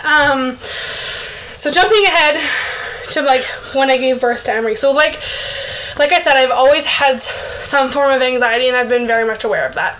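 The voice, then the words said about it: Breathless, out-of-breath speech. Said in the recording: “sorry, I'm out of breath.”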